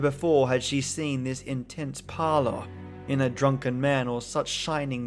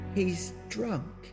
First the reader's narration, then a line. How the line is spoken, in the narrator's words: said Jenny in a weak voice